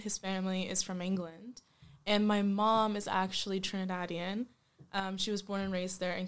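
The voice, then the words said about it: Canadian English accent. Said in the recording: “As you can probably tell by my accent, I am not born in the UK. I'm actually from Canada.”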